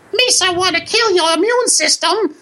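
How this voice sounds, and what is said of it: Imitates a cartoon character's voice. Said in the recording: “was a good impression of him, actually ... Yeah, it was a pretty good. I worked on it.”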